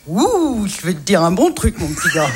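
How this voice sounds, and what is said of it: Imitates another person's voice. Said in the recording (French): “Jean Gabin ... Remarquable imitation.”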